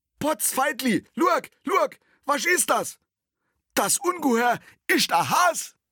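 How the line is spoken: Joyful calling out. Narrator (German): rief er voller Freude

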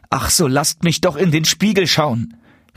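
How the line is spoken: Child calling out. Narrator (German): rief der Kleine

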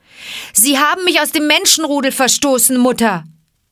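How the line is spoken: Calling out. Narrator (German): rief Mowgli

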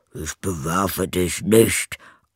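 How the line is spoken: Grumbling. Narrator (German): antwortete der erste und brummte

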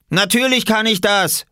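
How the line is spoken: Calling back. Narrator (German): rief Robert zurück

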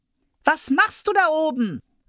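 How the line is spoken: Child calling upward. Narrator (German): rief der kleine Hävelmann hinauf

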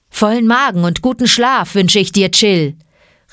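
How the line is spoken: Calling out. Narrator (German): rief Bagheera

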